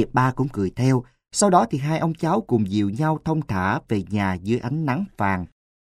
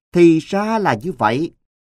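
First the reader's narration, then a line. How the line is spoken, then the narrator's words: Loud laughter. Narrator (Vietnamese): Người cháu nội của ông lại liền cười lớn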